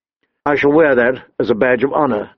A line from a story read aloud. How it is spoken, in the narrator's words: Ned said dryly